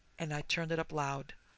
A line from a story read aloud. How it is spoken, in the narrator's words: he whispered